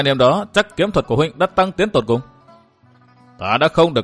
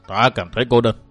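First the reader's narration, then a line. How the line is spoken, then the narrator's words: Sighing. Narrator (Vietnamese): Quỷ Kiếm Giả Trường thở dài một tiếng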